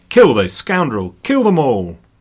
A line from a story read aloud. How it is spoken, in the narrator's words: from the back, Philip himself shouted